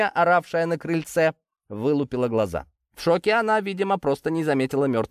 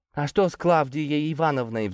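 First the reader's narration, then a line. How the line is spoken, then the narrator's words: Sudden timid young woman. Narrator (Russian): Вдруг робко спросила молодая девушка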